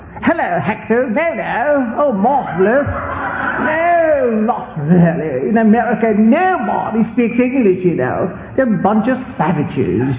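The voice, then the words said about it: Posh British English accent imitation. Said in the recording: “my British teacher, my English teacher in Argentina was a British teacher ... And I talk a little bit like that with a Spanish accent.”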